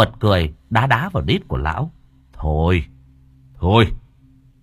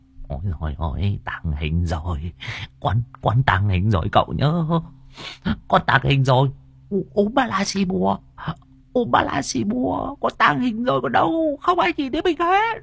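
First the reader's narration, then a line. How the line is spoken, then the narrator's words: Old man muttering. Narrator (Vietnamese): Tiếng của lão vẫn còn lẩm bẩm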